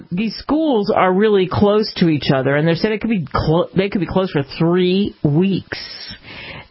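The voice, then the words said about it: British accent. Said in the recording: “I'm sorry for my British accent.”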